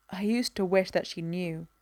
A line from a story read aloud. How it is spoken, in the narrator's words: Barry mutters